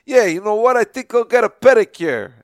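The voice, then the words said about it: Exaggerated put-on accent. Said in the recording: “I think I do a little accent ... maybe I'm probably doing it a little on purpose ... I have to like exaggerate”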